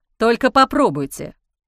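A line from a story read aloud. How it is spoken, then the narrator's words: Growled. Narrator (Russian): рыкнул Ник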